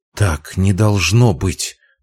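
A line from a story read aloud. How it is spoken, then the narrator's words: Whispered. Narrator (Russian): прошептала она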